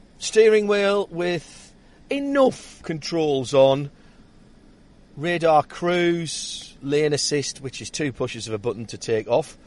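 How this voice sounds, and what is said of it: Northeastern English accent. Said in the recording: “my northeastern accent”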